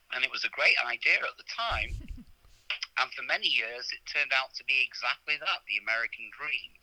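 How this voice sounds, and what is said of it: British English accent. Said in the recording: “he's very British ... You probably tell from my accent that I was not born in this country. I was born in England.”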